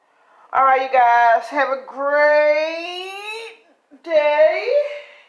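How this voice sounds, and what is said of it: Voice rises high in pitch. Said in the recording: “how high my voice got”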